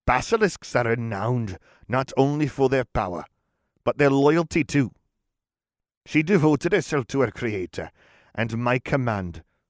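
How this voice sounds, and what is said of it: Very exaggerated Welsh accent. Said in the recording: “It's getting Welsh ... I am doing a very exaggerated Welsh accent.”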